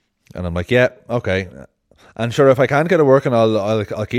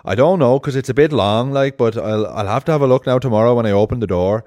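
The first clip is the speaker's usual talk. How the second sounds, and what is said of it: Imitated Arklow Irish accent. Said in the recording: “I don't know if you know the Arklow accent, but this is a dead on Arklow accent.”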